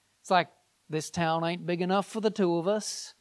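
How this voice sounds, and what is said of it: Poor put-on Southern accent. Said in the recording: “that was that was a pretty bad Southern accent”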